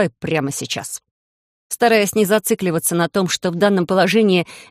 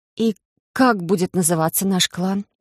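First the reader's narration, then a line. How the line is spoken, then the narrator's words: Tired exhale. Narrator (Russian): Устало выдохнула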